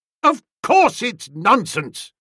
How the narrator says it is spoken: I thundered

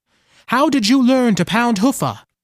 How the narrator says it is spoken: said loudly

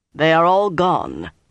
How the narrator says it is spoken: Lan announced grimly

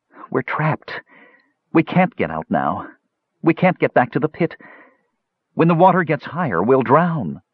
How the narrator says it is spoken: Brandella … said in despair

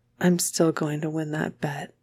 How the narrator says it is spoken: whispers

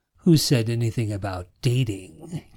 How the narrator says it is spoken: King chuckled

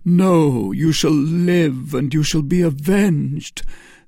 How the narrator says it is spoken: cried Felton

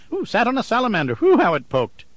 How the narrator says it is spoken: finally she did laugh, and explained it away quickly by saying

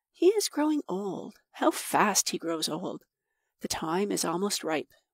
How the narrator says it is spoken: whispered Samud Singh

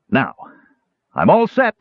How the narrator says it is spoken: he called out cheerfully to Teeka

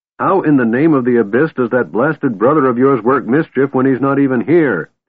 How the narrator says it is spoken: Tanis shouted

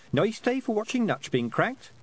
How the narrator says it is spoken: said Tiffany cheerfully as she went past

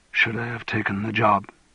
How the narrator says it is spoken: He said in a whisper, as if to himself

